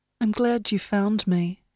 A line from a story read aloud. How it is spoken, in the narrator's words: said Jenny softly